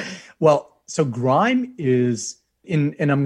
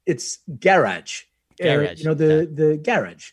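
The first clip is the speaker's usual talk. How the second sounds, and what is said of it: Put-on British accent. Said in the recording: “I'm going to try to use my British accent, which is fantastic, by the way.”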